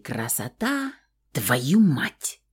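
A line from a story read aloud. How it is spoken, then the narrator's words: Hissing. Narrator (Russian): прошипел пернатый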